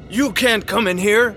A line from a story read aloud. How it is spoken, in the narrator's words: shouted the second priest